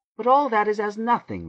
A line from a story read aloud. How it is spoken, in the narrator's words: Rachel cried